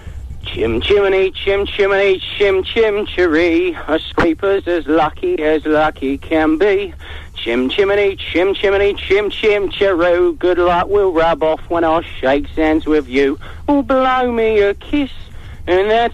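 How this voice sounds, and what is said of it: Dick Van Dyke as Bert impression. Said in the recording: “impressions of Dick Van Dyke ... In the style of Bert out of Mary Poppins”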